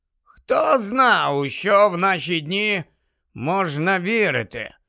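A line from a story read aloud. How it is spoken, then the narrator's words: Muttered under breath. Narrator (Ukrainian): пробурмотів собі під носа Дерк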